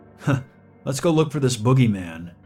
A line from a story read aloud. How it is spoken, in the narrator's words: the other cop chuckled